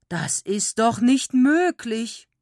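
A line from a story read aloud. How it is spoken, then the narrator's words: Exclaiming. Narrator (German): statt mit ihnen zu schimpfen, rief er aus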